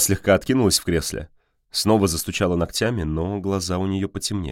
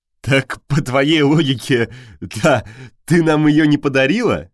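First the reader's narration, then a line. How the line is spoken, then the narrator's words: Laughing. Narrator (Russian): рассмеялся Константин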